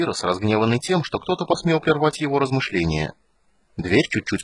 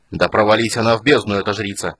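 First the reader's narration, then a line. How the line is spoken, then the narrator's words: Growling. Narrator (Russian): зарычал Пирос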